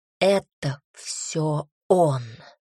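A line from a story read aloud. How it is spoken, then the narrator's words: Angry hiss. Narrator (Russian): зло шипел дух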